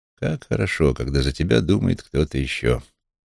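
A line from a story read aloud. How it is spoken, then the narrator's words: Mutter. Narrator (Russian): пробормотал я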